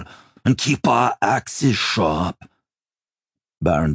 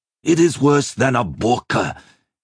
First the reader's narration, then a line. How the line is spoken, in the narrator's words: he snarled